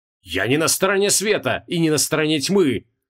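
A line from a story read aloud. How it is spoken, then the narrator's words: Angry shout. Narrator (Russian): зло выкрикнул Креол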